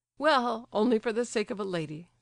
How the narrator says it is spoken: said Hippolyte, laughing

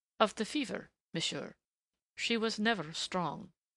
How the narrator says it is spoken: he answered calmly enough

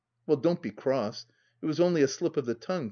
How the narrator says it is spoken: pleaded he

